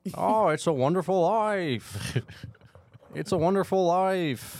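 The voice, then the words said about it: Imitates another person's voice. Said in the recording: “I'm fucking Jimmy Stewart all of a sudden ... Are you asking me or Jimmy Stewart?”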